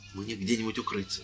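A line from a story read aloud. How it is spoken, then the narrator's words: Whisper. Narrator (Russian): зашептал священник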